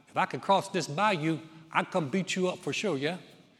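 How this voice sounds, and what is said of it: Imperfect put-on Cajun accent. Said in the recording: “excuse my Cajun accent. It's the best I can do. I'm from North Carolina”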